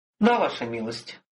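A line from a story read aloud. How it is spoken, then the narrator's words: Sighed. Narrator (Russian): вздохнул Виктор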